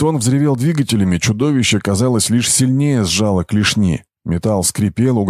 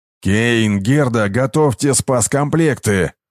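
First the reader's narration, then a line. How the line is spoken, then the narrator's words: Growled command. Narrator (Russian): прорычал Брахма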